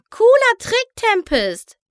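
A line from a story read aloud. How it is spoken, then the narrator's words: Calling out. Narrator (German): rief Pinkie Pie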